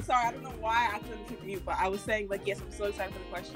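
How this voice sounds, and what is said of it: Speaks with a noticeable accent. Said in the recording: “you can hear, like, an accent there ... hers, you will see that it's going to be coming in and out”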